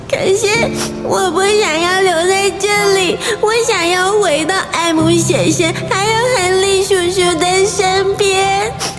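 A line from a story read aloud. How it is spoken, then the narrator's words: Crying. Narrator (Chinese): 陶乐斯哭着说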